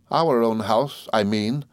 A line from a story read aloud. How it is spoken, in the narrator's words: faltered my mother, evidently frightened